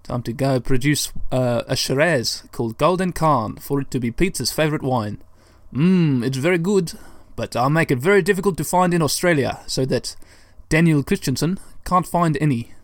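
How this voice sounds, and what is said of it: Put-on South African accent. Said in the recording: “I suddenly turned into a South African man ... That little bit of accent play is over”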